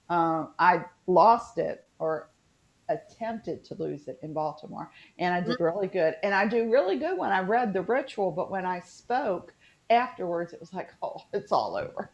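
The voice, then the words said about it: Natural West Virginia Southern accent. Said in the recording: “My accent, I'm sorry, I apologize now because it's been slipping in and out ... This is my natural accent.”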